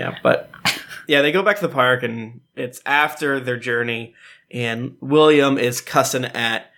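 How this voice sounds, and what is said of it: Usual voice. Nothing is said of it.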